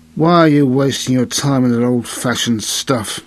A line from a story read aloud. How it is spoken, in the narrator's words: a sneering, contemptuous voice